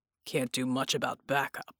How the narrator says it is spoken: he said grimly

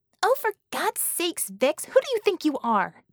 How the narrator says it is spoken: Bella snapped

